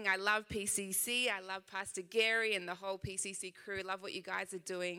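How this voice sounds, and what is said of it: Slight Australian accent. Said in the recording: “I know I do have a little bit of an accent, just a little bit. Uh, I am from Sydney, Australia.”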